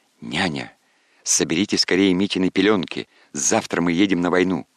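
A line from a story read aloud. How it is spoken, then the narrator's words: Plain. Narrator (Russian): сказал князь Ардальон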